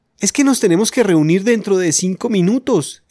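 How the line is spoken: Exclaiming. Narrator (Spanish): exclamó Janet

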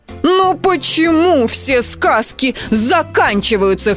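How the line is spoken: Shouting. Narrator (Russian): кричал он

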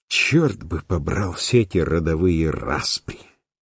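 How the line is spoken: Angry muttering. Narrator (Russian): злобно пробормотал Ренс

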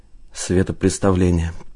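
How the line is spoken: Muttering. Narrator (Russian): пробормотал Одинцов

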